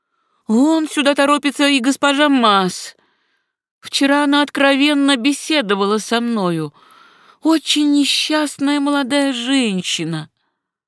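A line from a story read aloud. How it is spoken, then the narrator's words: Abrupt cut-off exclamation. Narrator (Russian): Вдруг она прервала свою речь на полуслове, воскликнув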